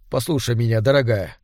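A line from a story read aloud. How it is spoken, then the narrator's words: Deliberately calm. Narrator (Russian): нарочито спокойно произнес Герия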